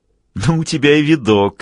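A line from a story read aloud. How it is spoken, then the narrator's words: Giggling. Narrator (Russian): хихикнул Олли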